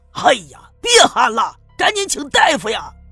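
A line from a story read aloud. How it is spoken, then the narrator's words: Anxious, urgent shout. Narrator (Chinese): 赵村长急得一跺脚，冲刘玉梅喊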